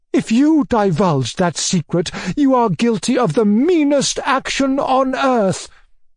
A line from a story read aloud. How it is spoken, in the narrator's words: cried my uncle in a frenzy